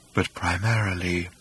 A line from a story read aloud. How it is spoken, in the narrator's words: he said in his former wistful tone